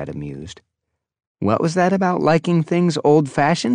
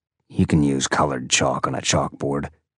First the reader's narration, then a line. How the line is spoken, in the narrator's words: he said gruffly